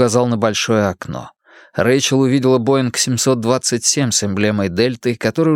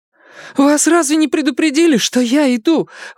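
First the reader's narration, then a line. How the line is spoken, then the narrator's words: Exclamation. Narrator (Russian): воскликнул Рэйчел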